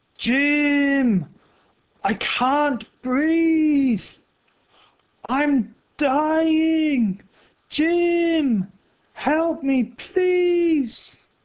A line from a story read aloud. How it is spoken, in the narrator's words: Oscar began to shout